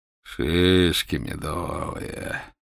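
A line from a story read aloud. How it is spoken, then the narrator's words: Purring. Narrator (Russian): промурлыкал капитан-поручик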